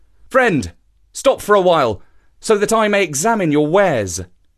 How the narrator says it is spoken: he called out to the trader

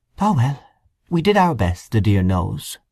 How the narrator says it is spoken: she gave a little sigh and said

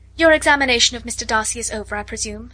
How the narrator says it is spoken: said Miss Bingley

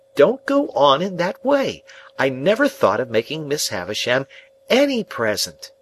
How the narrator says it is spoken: I cried in desperation

